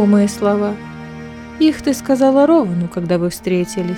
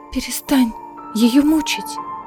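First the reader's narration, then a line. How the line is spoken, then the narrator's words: Whisper. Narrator (Russian): прошептала Элида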